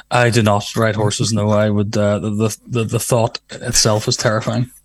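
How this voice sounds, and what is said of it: Northern Irish accent. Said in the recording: “you're from Belfast, I can tell from your accent. Your lovely Northern Ireland accent.”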